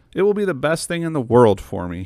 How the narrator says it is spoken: he said

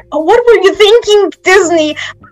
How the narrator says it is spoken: I cried

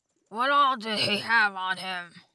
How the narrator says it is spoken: Muto asked gruffly

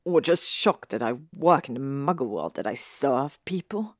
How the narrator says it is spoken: He said with a sneer

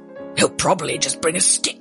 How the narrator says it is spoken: growled the giant

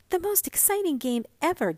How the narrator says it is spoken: gasped Mink, pink-faced

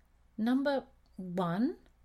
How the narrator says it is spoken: read Alfie slowly

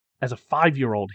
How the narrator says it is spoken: says

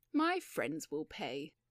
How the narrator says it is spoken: sighed Mr

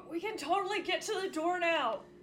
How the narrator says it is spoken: Yagra yells back

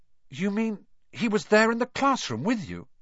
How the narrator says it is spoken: Harry gasped

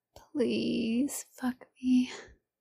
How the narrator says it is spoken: she whispered

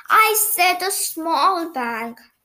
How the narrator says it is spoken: groaned Big Ears

